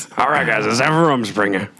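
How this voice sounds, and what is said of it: Southern Amish guy voice impression. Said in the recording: “Southern Amish guy ... does your voice way better than you”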